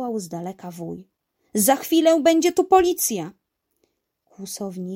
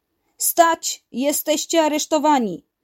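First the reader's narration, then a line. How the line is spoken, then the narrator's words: Police through megaphone. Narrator (Polish): zawołali policjanci przez megafon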